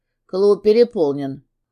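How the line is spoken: Gruff grumble, big man. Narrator (Russian): буркнул кривомордый здоровяк

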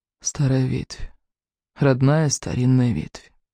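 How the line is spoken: Whispering. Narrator (Russian): Лутан шептал

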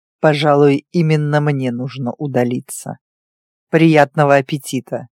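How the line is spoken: Cold, head of house. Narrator (Russian): Холодно сказал глава дома

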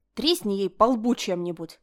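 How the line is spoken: Growled. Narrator (Russian): рыкнула Линель

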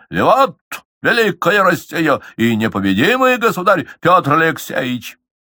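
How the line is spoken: Shout. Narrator (Russian): он трижды не крикнул

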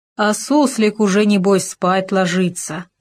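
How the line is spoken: Grumbling. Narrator (Russian): ворчал Хома

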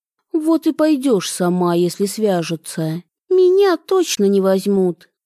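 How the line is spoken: Perfectly calm little sister. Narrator (Russian): абсолютно спокойно выдала сестренка

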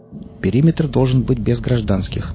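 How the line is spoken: Official announcing tone. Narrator (Russian): официальным тоном объявил капитан

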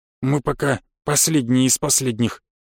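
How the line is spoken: Grumbling. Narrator (Russian): буркнул Рубари

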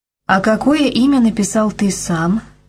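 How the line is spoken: Plain. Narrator (Russian): спросила она

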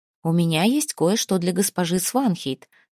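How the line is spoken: Plain. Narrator (Russian): сказала Снефрид

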